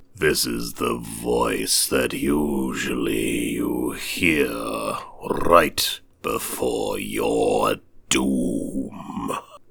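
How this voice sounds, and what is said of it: Scary put-on voice. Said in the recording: “this is my scary voice.”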